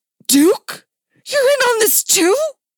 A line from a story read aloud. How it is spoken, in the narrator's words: Dick gasped